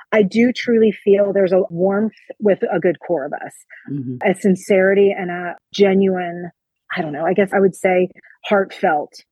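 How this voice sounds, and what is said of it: New Jersey accent. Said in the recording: “I've got this Jersey girl accent”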